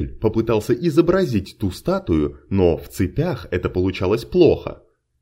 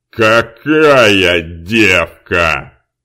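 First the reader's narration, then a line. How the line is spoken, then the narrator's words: Growling outburst. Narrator (Russian): не выдержал рычащий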